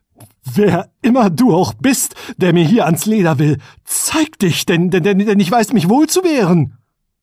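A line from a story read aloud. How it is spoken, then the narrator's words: Trembling shout. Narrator (German): rief mit bebender Stimme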